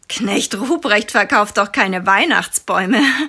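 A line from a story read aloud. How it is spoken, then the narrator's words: Half-hearted giggle. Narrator (German): Lennart kichert halbherzig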